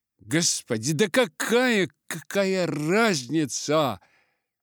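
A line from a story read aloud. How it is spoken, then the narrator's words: Exclamation. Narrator (Russian): воскликнул в ответ ему Дик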